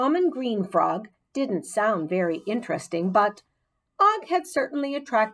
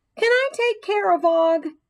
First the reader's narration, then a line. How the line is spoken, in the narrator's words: AJ asked loudly